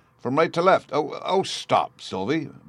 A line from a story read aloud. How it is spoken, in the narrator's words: Bruno cried in sudden alarm